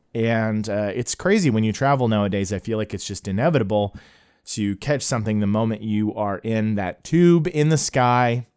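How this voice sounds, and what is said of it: Slightly scratchy voice from a cold. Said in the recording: “over a little bit of a cold ... I could feel my throat getting scratchy ... I have the remnants of the cold, so you might be able to hear it in my voice ... I might occasionally have to take a drink of water to prevent myself from coughing”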